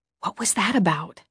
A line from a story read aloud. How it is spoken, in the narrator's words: I whispered